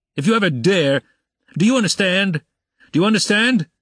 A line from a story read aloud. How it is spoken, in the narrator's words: he shouted